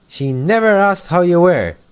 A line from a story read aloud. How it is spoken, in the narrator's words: cried Elsie indignantly